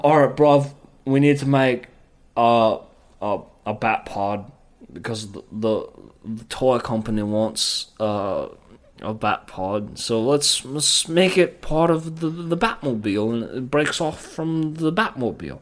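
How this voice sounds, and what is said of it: Fake drunken-sounding British accent. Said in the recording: “you sound like a drunk fucking... ... Faker, my only, real British, accent teacher”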